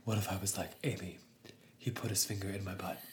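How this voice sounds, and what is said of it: Dramatic whisper. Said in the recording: “What if everything we said was in a dramatic whisper?”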